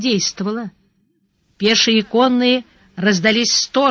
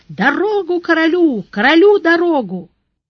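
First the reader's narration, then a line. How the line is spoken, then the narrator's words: Shouting bodyguard. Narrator (Russian): телохранитель закричал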